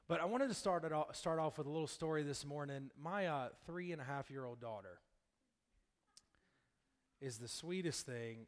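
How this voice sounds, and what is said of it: Hoarse, weak, nearly gone voice. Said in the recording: “I'm getting over a cold and my voice is about gone”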